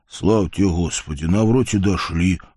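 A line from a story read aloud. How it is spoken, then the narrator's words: Relieved exhale. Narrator (Russian): выдохнул кузнец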